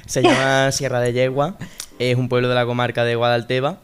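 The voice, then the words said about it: Spanish with Málaga regional accent. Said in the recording (Spanish): “El acento no lo has perdido mi arma, ¿eh?”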